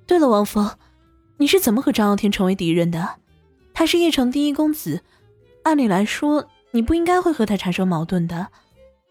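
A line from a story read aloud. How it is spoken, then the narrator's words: Sighing. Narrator (Chinese): 王峰叹息说道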